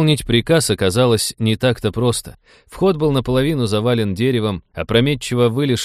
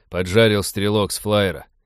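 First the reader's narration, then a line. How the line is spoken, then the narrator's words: Tired pirate reporting. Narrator (Russian): устало сообщил один из пиратов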